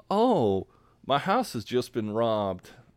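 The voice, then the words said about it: Put-on Southern accent. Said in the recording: “I'm doing a Southern accent.”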